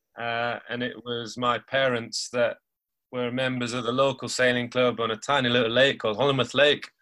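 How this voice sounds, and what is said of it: Northern English Lancashire accent. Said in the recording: “you might have got it from my accent, but I'm from Lancashire, up north”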